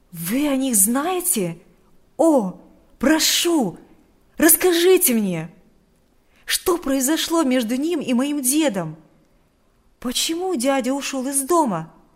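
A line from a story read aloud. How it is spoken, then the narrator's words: Impatient exclamation. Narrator (Russian): воскликнул Адам с нетерпением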